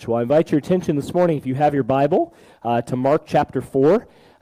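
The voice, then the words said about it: Scratchy, hoarse voice. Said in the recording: “I am fighting that cold bug apparently as well, so pardon my voice if it feels scratchy like Screech from Saved by the Bell”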